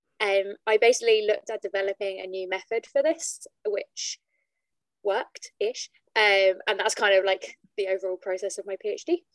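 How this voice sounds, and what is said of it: British (UK) accent. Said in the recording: “I'm originally from the UK, as you can probably tell from my accent.”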